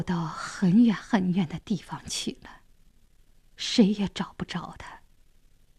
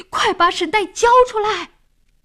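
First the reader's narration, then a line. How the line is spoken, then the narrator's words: Loudest shout. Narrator (Chinese): 老王喊的声音最响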